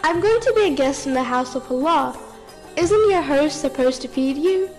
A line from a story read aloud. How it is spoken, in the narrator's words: The young boy smiled and kindly replied